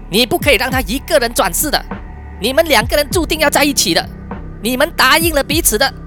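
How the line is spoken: Frantic shouting. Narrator (Chinese): Chandra 阿姨更加疯狂了，她大喊着说

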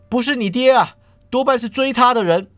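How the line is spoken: Shouting. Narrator (Chinese): 他……张口喊道

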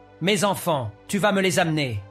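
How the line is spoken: Demonic roar. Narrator (French): rugit la voix démoniaque

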